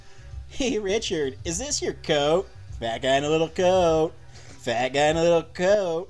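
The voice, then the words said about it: Imitates another person's voice. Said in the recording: “do your impression of Chris Farley ... do a real impersonation of him”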